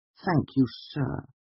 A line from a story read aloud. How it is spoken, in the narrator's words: I said meekly